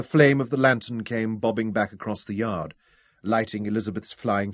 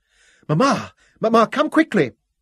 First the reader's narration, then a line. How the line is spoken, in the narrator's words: Her voice rang with excitement